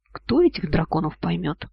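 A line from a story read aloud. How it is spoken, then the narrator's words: Sorrowful muttering. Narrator (Russian): Парень горестно вздохнул, бормоча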